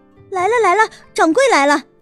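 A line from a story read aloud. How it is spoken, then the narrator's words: Anxious shout. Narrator (Chinese): 狄凤兰一见到秦婉如要走，急得大叫起来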